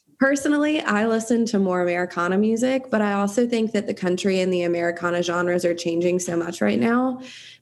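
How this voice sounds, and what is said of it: Southern US accent. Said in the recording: “I was raised in South Carolina. ... I can't change my accent.”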